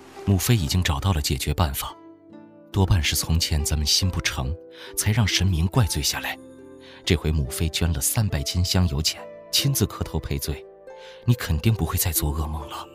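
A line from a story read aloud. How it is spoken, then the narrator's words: Softened, lowered voice. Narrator (Chinese): 面色稍霁 压低声音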